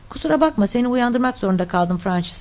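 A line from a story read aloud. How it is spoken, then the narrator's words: Plain. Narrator (Turkish): dedi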